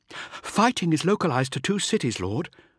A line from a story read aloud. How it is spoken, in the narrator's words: she said breathlessly